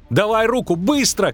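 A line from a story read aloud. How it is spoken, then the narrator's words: Shouting. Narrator (Russian): крикнул Лютик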